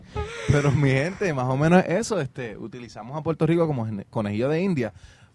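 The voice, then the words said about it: Deep, sexy announcer-like voice. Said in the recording (Spanish): “tengo voz de locutor aquí bien sexy”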